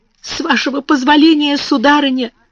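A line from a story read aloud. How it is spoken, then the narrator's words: Stammering mumble. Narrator (Russian): заикаясь, пробормотала она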